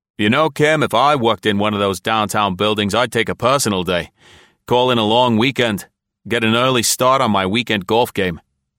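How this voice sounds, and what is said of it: Man's voice, thick Boston accent. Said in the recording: “a man's voice, a thick Boston accent.”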